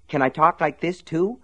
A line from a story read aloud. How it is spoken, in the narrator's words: Slopey asked eagerly